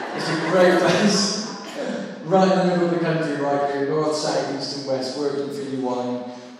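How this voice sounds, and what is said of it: Southwest English Somerset accent. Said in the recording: “You can probably tell from my accent I'm down in that, you know, southwest corner somewhere, being a Somerset boy.”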